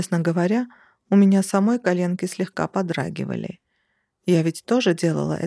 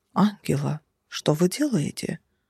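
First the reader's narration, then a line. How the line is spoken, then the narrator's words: Shocked whisper. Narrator (Russian): Потрясенным шепотом поинтересовался он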